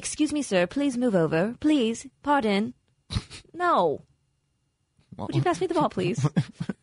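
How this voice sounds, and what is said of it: Snobby, posh put-on accent. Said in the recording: “What is that, like your snobby accent? ... is that like the snob accent? ... My snobbery.”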